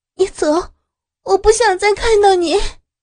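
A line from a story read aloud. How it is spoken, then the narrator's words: Helpless shout. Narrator (Chinese): 林冰无奈的对着黄文君喊着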